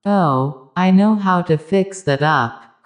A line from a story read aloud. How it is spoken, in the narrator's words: cried the other